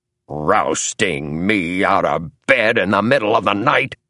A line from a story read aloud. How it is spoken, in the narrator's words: saying in an angry voice